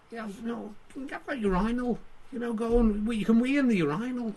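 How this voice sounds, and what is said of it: Impression drifting into Liverpool accent. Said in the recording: “Or it's gone Liverpool.”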